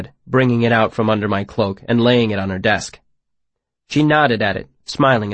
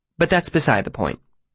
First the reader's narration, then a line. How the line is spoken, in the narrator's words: she said dryly